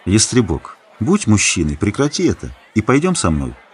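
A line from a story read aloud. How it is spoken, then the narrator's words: Gentle request. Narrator (Russian): мягко попросил Геда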